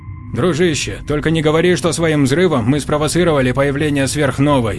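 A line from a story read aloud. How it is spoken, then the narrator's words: Grumbling. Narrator (Russian): проворчал Ионников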